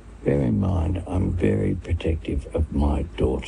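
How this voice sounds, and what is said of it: Whispering. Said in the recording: “he's whispering ... in his ear. ... Whispering into the... The new boyfriend's ear.”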